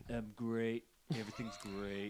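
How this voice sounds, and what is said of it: Imitates another person's voice. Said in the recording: “Do your best Trump impression.”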